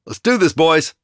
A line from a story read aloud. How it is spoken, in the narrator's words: I shouted